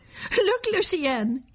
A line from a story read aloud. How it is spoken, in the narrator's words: shouted